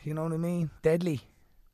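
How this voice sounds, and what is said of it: Put-on Dublin Irish accent. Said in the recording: “I can do the Dublin accent like that. ... James Morrison, that's very impressive.”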